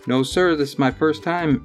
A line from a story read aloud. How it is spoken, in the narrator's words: exclaimed little Brian